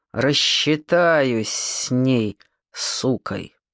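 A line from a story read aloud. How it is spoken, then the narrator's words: Through clenched teeth. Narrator (Russian): играя желваками, процедил сквозь зубы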